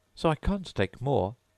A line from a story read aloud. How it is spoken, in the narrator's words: Alice replied in an offended tone